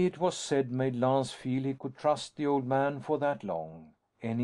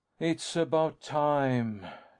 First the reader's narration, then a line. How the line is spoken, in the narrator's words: Lance sighed